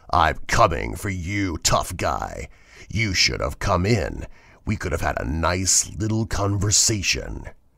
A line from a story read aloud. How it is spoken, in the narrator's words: a low, rumbling laugh built until a deep, raspy voice said